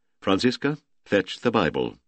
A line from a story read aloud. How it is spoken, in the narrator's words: Ludwig Allerkamp said gravely